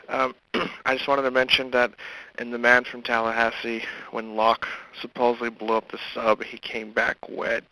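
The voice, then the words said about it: Rough, sick-sounding voice. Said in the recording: “Sorry my voice is rough. I'm kind of under the flu.”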